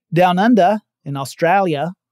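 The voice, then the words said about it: Poor put-on Australian accent. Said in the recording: “I apologize for that, I know, I can never do an Australian accent. Australian and Scottish are two that I will never, ever, ever be able to do”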